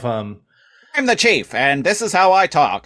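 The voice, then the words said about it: Fast stereotypical detective-movie voice. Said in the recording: “I talk like a stereotypical guy in a detective movie, but even faster and even more annoying.”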